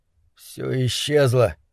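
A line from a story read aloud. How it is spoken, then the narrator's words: Muttering. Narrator (Russian): пробормотал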